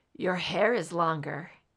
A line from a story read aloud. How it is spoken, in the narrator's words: he muttered thickly